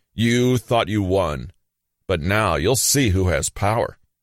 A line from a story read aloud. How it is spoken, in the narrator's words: Jesus roared